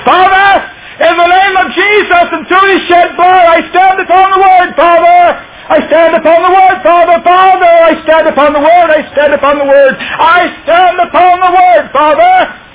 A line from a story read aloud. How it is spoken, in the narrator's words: I began screaming as loudly as I could